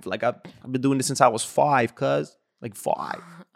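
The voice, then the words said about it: Imitated LA West Coast accent. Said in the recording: “that's like the LA, that's like the West Coast, like five.”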